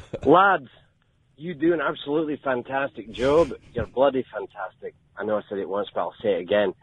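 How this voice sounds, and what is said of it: Convincing Scottish accent. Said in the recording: “How great is that accent? ... an incredible Scottish accent ... That sounded legit”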